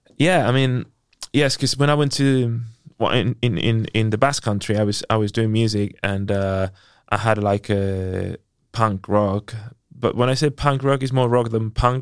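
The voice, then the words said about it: South London accent. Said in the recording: “now that I'm hearing your accent more, you sound... It's like South London.”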